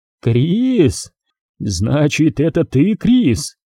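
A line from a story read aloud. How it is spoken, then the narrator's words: Hysterical laughter. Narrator (Russian): Ирвин истерически засмеялся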